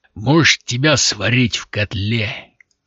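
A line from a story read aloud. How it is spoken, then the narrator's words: Booming drone. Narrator (Russian): прогудел он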